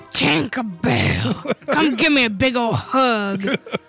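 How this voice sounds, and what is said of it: Tinkerbell character voice. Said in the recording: “Tinkerbell impersonation”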